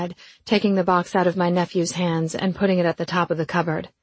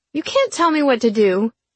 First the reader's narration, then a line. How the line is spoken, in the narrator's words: Riley whined